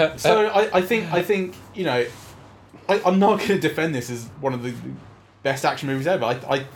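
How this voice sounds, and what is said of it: Usual voice. Nothing is said of it.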